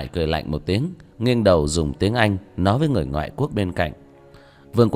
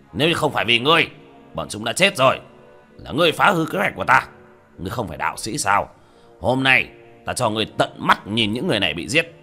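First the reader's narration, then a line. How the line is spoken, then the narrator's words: Laughing, then shouting. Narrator (Vietnamese): cười lớn một tiếng, hét lên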